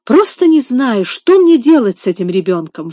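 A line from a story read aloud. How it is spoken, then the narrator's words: Desperate exclamation. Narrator (Russian): в отчаянии воскликнула мисс Офелия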